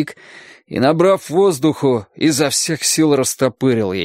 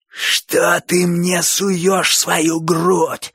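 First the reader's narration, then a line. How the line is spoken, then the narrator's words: Terrible hoarse croak. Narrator (Russian): страшным голосом захрипел Боча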